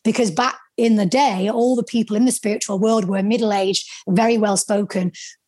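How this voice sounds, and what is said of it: Northern English accent. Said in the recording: “I sounded stupid with my Northern accent ... a little bit of insecurity around my accent”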